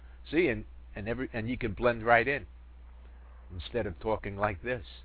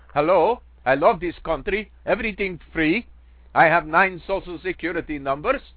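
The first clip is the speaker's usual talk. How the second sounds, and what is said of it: Put-on foreign accent. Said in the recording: “teaching English with a foreign accent ... how to speak English with a foreign accent”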